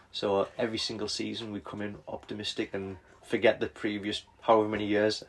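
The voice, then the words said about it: North East English accent. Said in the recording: “accent, we're both from the North East”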